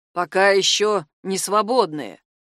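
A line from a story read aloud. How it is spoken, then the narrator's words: Gloomy. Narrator (Russian): мрачно отвечал он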